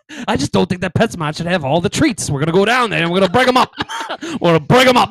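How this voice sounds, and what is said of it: Boston accent. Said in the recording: “we do speak with a Boston accent”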